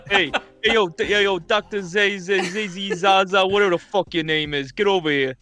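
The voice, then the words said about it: Put-on New Jersey accent. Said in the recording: “What do you think the monkeys from Jersey would sound like? ... different accents?”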